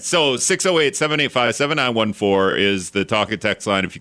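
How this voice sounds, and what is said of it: Very fast speech. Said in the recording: “I said it really fast.”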